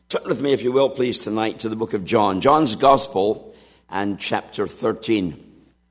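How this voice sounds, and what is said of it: Scratchy throat. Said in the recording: “a little bit of a scratchy throat”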